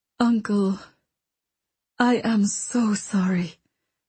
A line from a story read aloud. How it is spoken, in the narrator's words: Princess Elise murmured